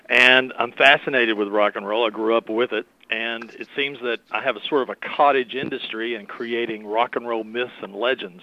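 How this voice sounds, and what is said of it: Southern US accent. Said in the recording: “I live in the southern part of the United States, as you can tell by my dialect.”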